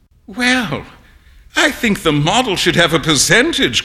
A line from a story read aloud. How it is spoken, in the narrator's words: cried Huey, laughing